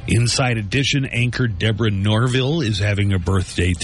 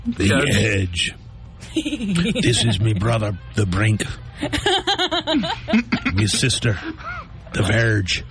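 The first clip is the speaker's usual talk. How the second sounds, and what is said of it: Put-on Irish accent. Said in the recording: “I'm speaking in an Irish accent”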